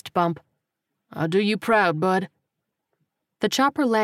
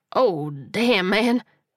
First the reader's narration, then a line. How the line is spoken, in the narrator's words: Kowalski stammered